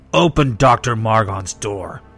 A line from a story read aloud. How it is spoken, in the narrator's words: he snarled